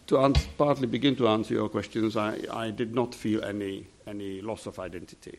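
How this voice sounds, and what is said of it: Central European accent. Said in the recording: “my Central European accent”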